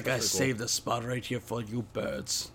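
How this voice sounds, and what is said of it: Badly done put-on accent. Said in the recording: “That's a horrible accent ... Yeah, real bad.”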